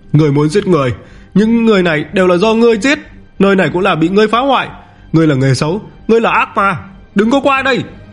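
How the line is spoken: Frightened shout. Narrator (Vietnamese): Tổng Nguyên Soái hét lên một tiếng, sợ hãi nói

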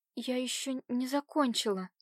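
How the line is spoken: Frightened mumble. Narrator (Russian): промямлила она испуганно

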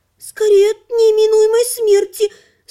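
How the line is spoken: Nervous squeak. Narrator (Russian): нервно пискнула Лана

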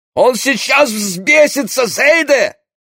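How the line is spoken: Shout. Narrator (Russian): крикнул Папиш

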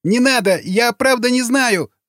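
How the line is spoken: Shriek. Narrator (Russian): завизжал боевик

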